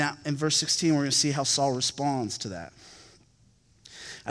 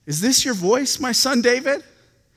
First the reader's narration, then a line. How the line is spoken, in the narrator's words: Saul lifted up his voice and wept